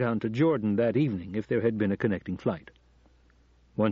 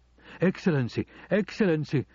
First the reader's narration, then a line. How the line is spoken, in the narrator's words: exclaimed